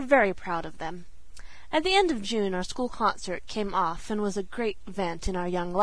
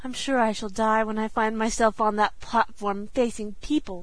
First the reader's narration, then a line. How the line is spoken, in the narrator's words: sighed Sarah Ray